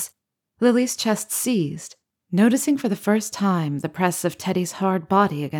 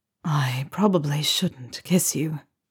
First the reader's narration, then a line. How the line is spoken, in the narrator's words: he whispered